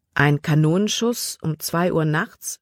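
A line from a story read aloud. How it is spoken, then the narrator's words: Plain question. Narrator (German): fragte Libby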